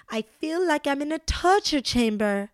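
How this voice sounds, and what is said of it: Put-on worldly-sounding accent. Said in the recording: “kind of like my accent? ... That's my best Dorit accent, actually. ... Do I sound worldly in that accent now?”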